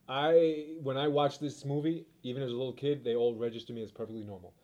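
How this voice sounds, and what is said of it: New York East Coast accent. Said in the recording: “has a New York East Coast accent”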